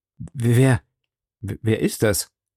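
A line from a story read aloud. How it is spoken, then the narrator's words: Stammering. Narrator (German): stammelte er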